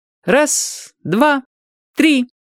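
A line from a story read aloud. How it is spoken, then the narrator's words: Ringing childlike counting. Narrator (Russian): начал считать Юрчик звонким своим голоском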